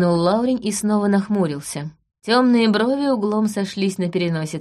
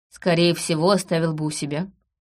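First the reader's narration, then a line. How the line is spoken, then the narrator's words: Calm. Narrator (Russian): спокойно сказал Лаурин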